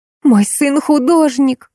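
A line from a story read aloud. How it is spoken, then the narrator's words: Exclaimed. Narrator (Russian): воскликнула Алиса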